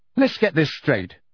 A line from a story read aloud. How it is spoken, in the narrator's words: said Harry angrily